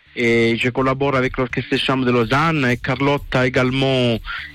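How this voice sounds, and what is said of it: German accent speaking French. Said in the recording (French): “Avec un accent euh, originaire d'Allemagne, hein, évidemment, comme on entend.”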